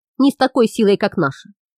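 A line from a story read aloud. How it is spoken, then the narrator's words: Grumbling. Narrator (Russian): проворчал Хам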